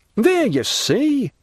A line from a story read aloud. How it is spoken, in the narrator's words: exclaimed Danglars